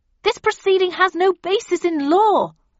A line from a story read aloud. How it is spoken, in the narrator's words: I shouted, attempting to drown out the vicar